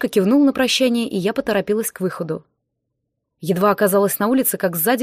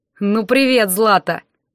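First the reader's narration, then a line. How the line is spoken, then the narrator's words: Thug's smirking grunt. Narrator (Russian): хмыкнул один из громил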